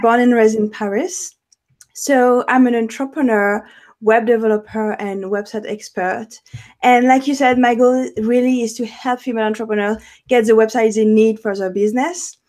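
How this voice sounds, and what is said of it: French-accented English. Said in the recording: “French. I'm French. I have an accent”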